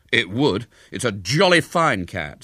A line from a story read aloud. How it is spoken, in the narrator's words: said William indignantly